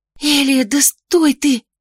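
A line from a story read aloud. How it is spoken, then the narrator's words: Loud whisper. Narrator (Russian): громким шепотом воскликнула Ксанна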